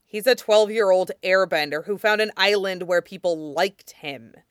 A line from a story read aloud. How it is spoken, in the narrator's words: Zuko grumbled